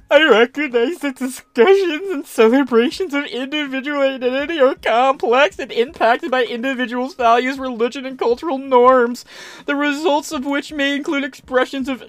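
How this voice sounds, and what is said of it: Whiny voice. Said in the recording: “This whiny voice is actually starting to hurt me.”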